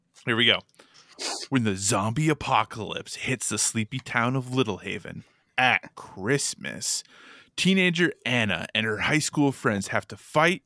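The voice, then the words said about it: Announcer voice. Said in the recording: “trying to clear my throat a little bit to try to, make my announcer voice”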